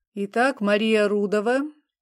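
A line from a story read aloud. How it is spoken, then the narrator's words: Old man's droning reading. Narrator (Russian): читает старик с планшета занудным голосом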